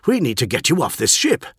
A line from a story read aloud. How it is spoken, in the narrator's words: said Forex urgently